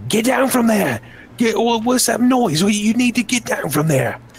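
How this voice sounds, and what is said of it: Shouting guard character voice. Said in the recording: “he's shouting”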